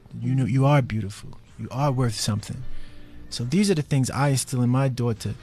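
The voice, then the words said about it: New York accent. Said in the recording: “I'm trying to turn down my New York accent, because you wouldn't hear the T if I say daughter.”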